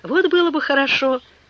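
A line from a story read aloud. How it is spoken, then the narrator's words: Exclaiming. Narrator (Russian): воскликнул Пенкроф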